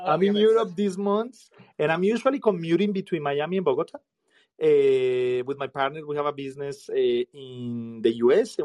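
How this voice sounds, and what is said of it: Thick accent. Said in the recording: “this funny and thick accent”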